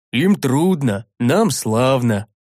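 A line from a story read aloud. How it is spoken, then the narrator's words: Chuckling. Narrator (Russian): хохотнул Рикар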